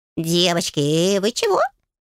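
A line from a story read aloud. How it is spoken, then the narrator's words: Squeak. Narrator (Russian): пискнула ручка впервые после моего прихода, подав голос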